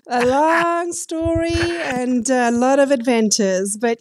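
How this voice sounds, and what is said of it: South African accent. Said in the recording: “I love that accent. Where are you from originally, girlfriend? ... South Africa.”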